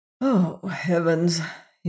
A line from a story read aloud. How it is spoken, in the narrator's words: he muttered